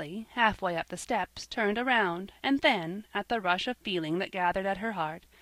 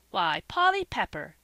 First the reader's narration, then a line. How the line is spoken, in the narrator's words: exclaimed Joel, not minding his own upset